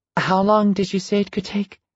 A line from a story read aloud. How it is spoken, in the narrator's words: Carmen asked timidly